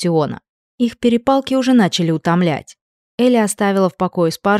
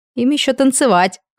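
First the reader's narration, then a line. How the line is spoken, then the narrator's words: Laughing. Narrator (Russian): хохотнула Джеки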